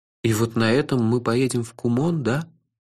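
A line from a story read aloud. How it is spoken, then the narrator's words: Dejected, sinking question. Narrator (Russian): упавшим голосом спросил я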